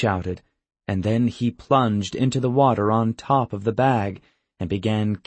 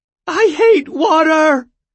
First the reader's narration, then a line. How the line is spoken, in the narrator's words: she shouted, dripping and sputtering